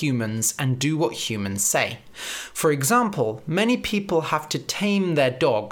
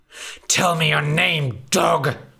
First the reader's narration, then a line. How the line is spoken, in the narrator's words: spat the big bad wolf